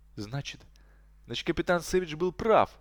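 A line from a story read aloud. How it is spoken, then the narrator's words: Bursting exclamation. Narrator (Russian): воскликнул Гудман, который уже не мог сдерживаться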